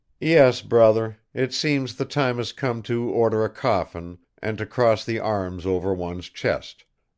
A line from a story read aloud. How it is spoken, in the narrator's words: remarked Nikolai Petrovich with a sigh